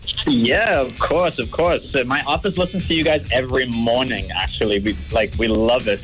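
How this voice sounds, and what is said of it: English accent. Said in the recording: “what kind of accent is that I detect ... I'm from England. Well, I was raised in England.”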